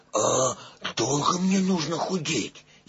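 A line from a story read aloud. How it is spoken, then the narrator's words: Frightened question. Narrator (Russian): испуганно спросил Пух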